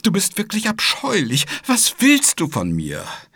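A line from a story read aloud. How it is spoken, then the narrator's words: Sobbing. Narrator (German): schluchzte Rosa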